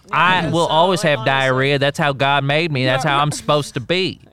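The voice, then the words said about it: Put-on Missouri accent. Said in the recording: “That's a classic Missouri accent.”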